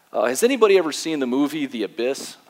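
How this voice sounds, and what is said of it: Put-on Canadian accent. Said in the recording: “He's from Canada, in case you couldn't tell with the accent right there.”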